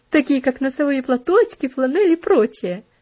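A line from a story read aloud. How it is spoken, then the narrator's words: Laughing interjection. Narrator (Russian): вставила, смеясь, Аделейд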